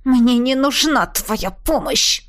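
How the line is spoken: Angry reply. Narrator (Russian): Зло ответила я

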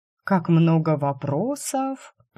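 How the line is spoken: Drawn-out drawl. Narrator (Russian): протянула

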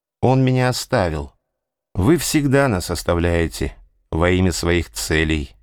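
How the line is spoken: Calm female voice. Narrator (Russian): она спокойно сказала

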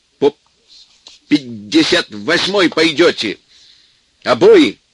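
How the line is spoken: Shouting. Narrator (Russian): кричал Сеня

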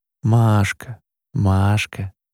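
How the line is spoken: Muffled into shoulder. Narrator (Russian): глухо проговорила мама в ее плечо

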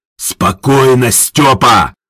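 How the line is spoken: Growl into ear. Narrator (Russian): рыкнул Харитон Сергеевич в ухо Ажурову

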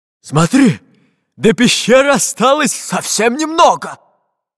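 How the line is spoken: Cheerful pirate exclaiming. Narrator (Russian): Весело воскликнул толстобрюхий пират

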